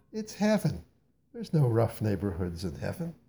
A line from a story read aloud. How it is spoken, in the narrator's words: laughed at my foolishness